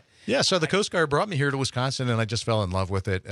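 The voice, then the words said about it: Slight Pennsylvania Dutch accent, rounded O's. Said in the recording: “You do have a little bit of a Pennsylvania Dutch accent. ... I round the O's a little bit”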